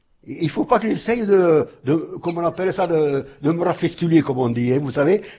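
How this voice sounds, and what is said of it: Alsatian French accent. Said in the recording (French): “Mon accent, c'est le mien ... Il a son accent alsacien”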